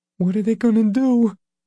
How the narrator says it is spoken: Leroy asked, his voice high and strained

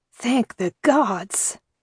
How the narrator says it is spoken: Father Christopoulos breathed

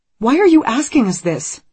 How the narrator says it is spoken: Anne says sharply

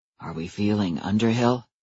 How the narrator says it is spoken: asked Adam in a low voice

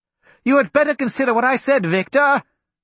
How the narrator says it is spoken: Archibald yelled after him

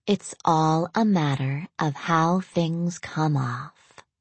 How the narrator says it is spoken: Audrey explained softly

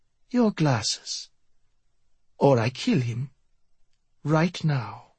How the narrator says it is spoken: Miyamune purred

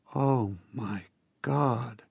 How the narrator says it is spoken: I said in a faint voice

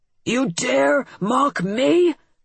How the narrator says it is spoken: the Fomor snarled

